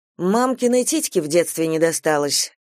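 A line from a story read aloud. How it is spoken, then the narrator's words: Angry smirk. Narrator (Russian): зло усмехнулась Алла Дмитриевна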